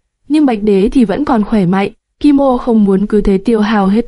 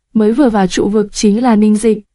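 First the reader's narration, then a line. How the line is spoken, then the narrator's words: Hoarse old man. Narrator (Vietnamese): Hắc Sam lão giả với giọng khàn khàn nói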